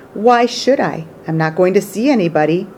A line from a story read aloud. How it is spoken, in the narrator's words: Bert Brisbane growled